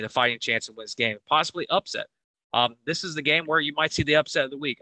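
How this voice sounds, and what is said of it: Weak, partly lost voice. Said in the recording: “my voice went away a little bit earlier. I've been fighting that all week”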